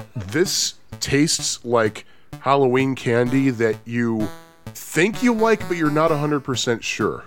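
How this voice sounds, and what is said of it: Slightly congested voice from cold. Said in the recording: “I'm getting over a cold, which is why my voice might sound a little slightly different from usual”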